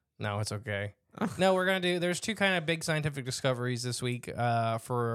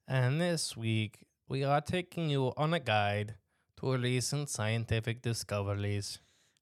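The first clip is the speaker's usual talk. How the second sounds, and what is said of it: Put-on accent, inconsistent. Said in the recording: “Your accent just seems to keep morphing.”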